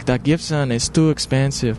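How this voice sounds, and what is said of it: Put-on accent imitating a shop clerk. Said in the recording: “pardon my fucking shitty accent. Not trying to make fun.”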